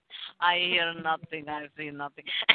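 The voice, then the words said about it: Put-on Hungarian accent. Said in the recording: “Is that your Hungarian accent there”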